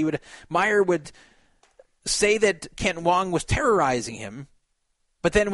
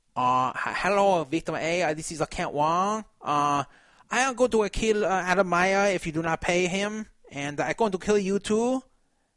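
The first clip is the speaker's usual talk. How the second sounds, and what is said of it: Put-on fake Asian accent. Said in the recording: “change his voice ... like a fake Asian accent.”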